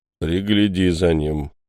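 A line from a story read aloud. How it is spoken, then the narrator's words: Grumbling. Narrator (Russian): буркнул Белобородый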